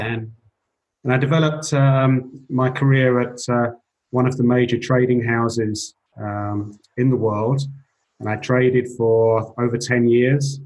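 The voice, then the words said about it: English accent. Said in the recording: “You can tell from my accent, I'm an English guy”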